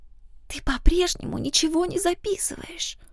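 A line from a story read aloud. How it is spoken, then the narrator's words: Sudden hiss. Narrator (Russian): Внезапно вновь зашипела на меня Люсиль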